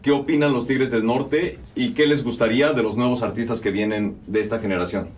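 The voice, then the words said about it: Radio announcer-style voice. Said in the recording (Spanish): “ahorita sí tiene voz de locutor... sí habla como el Jaguar Martínez”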